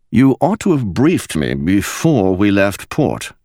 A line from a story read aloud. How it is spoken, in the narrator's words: replied